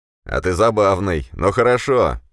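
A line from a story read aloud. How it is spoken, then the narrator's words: Shouted with a chuckle. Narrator (Russian): крикнул командир, хохотнув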